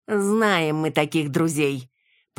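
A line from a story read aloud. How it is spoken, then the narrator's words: Nasty tone. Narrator (Russian): Противным тоном начал Васисуалий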